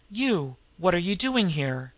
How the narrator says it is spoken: she exclaimed

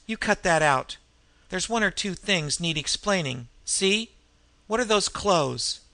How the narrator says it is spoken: snapped

